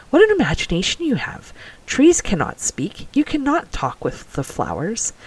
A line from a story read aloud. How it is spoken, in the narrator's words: Her mother, with a surprised laugh, chided gently